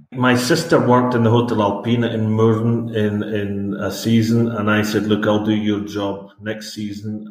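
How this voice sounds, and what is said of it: Scottish accent. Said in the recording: “your accent, you're originally from Scotland”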